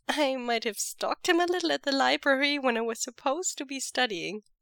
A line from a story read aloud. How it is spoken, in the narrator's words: Mo Xuanyu giggles